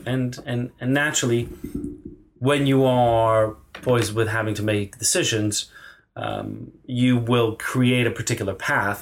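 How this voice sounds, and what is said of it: Non-London accent. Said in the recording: “that's not a London accent. ... where is that accent from”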